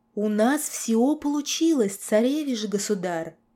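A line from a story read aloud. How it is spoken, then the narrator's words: Breathless. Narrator (Russian): выдохнул Дитмар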